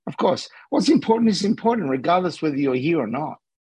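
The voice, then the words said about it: Slight Australian accent. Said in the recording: “I detect a small accent. Is that Aussie? Australian?”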